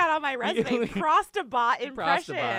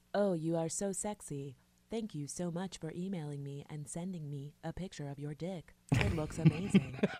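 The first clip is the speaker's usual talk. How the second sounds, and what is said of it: Sexy flirtatious bot character voice. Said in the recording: “Can you do a prostabot impression? ... What would a prostabot sound like? ... That's pretty good. ... prostabot impression”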